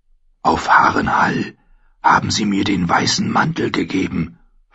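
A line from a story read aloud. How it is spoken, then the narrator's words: Whispered back. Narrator (German): flüsterte er zurück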